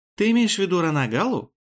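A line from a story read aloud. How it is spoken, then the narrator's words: Sigh of realization. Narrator (Russian): Поняв, о чем речь, вздохнула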